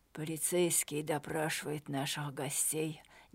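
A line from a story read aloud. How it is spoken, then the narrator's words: Quiet. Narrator (Russian): негромко сказал Мануэль Сильва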